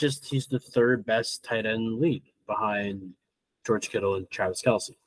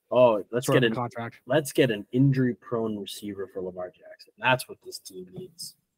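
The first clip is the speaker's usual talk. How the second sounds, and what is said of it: Sarcastic tone. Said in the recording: “you can hear the sarcasm in my voice.”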